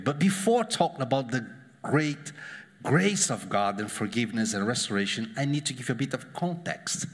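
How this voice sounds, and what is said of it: Spanish-accented English. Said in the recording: “coming from a guy with your accent makes just worse ... It's like my accent, Antonio Banderas. I'm not so rich or beautiful like him, but the same accent.”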